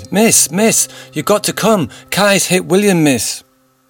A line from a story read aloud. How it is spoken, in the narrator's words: One of the other children shouted